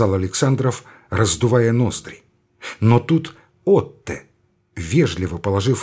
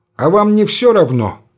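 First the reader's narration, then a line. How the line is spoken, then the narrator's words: Insolent snap. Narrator (Russian): дерзко огрызнулся Александров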